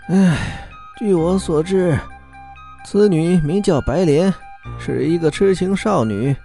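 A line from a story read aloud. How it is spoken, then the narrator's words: Sighing. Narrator (Chinese): 陈道士叹了一口气说道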